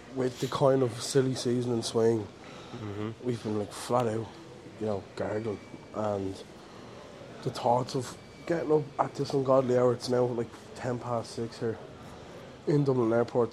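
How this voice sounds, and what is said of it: Tired, low-energy voice. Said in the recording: “You can probably tell by my voice. I have no energy.”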